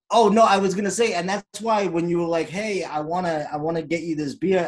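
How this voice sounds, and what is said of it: Boston accent. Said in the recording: “I just heard the Boston come out of him. He said this beer”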